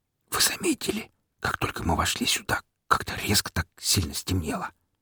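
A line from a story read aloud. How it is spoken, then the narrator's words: Whispering stranger. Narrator (Russian): говорил шепотом пришлый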